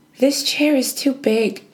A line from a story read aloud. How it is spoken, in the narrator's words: she exclaimed